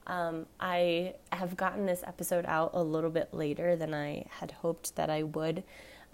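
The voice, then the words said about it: Tired, congested voice. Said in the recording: “I'm super fatigued. I'm recovering from a head cold. So if my voice is also annoying on this episode, I'm sorry.”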